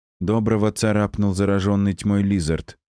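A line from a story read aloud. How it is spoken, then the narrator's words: Lifeless voice. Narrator (Russian): безжизненным голосом проговорила Тия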